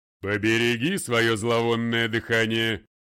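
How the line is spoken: Father's thunderous interruption. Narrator (Russian): перебил его отец громовым голосом

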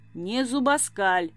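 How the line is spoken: Curt grim retort. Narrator (Russian): отрезал мрачно

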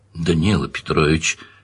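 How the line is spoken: Gentle. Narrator (Russian): мягко сказал майор

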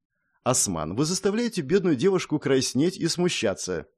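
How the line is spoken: Cheerful, sly. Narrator (Russian): весело отозвалась она, лукаво улыбаясь

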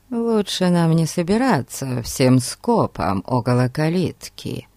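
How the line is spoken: Quiet. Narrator (Russian): тихо сказал Фати

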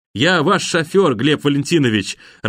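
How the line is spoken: Cheerful, through mask. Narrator (Russian): радостно сообщил майор, поправляя фильтрующую воздух маску

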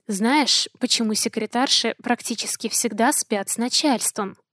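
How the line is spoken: Whisper, man. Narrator (Russian): Шепнул

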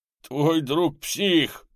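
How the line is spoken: Howling. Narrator (Russian): взвыл он

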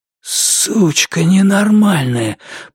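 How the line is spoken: Wheezing hiss. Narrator (Russian): просипел он

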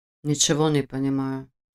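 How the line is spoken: Muttered. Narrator (Russian): пробормотал Войтых

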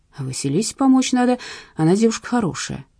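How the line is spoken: Sighing. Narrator (Russian): вздохнул Творогов

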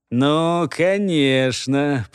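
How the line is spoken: Drawling voice from behind. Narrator (Russian): протянул позади него один из голосов

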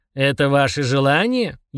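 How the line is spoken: Snide question. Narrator (Russian): ехидно спросил Фрундорог

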